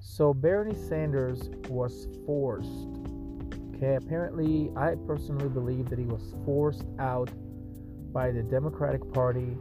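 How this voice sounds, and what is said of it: Thick foreign accent, broken English. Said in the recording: “my broken English and thick accent, because when I speak fast, it's sometimes it's hard to understand what I'm saying”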